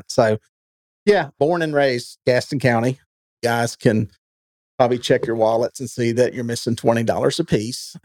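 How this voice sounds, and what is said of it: Southern American accent. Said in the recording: “this is how we talk ... the Southern accent”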